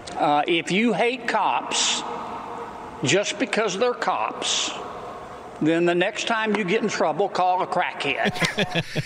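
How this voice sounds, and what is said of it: Louisiana Southern accent. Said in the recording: “that Louisiana Southern accent”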